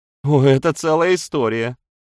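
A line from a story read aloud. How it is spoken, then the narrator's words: Laughing. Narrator (Russian): рассмеялась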